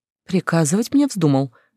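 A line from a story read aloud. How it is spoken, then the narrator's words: Soft inquiry. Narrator (Russian): мягко поинтересовалась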